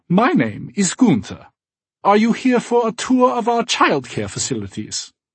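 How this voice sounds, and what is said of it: Slight German accent. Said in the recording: “with a slight German accent”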